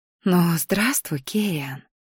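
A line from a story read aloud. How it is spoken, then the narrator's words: Soundless whisper. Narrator (Russian): прошептала одними губами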